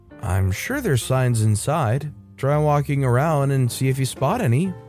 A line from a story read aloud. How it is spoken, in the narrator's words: I reply as kindly as I can